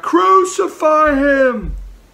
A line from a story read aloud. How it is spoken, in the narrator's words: the crowd would yell back